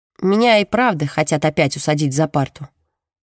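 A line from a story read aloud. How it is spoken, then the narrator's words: Gloomy. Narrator (Russian): мрачно говорит Джемма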